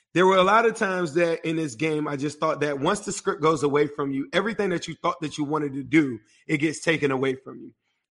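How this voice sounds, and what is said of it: Strained voice worn out from screaming. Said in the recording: “I apologize for my voice ... I sound terrible. I scream my heart out.”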